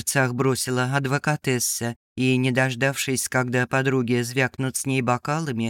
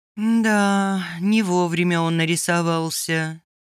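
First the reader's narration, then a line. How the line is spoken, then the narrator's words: Rueful sigh. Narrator (Russian): сокрушенно вздохнула Адуся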